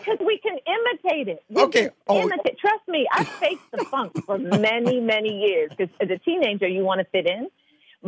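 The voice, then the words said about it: Clean British-sounding English accent. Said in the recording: “your accent is so clean, and it sounds very British ... It sounds very British”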